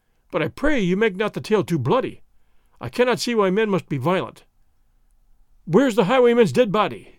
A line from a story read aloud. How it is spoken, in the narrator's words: Gonzales choked